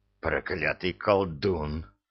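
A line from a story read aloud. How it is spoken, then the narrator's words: Furious muttered hiss. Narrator (Russian): с яростью прошипел себе под нос священник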